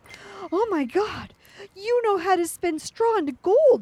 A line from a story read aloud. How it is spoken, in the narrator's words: gasped